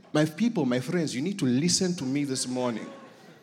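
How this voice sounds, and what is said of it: Put-on African accent. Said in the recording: “I can switch on the African very quickly ... when I speak with an accent, people listen”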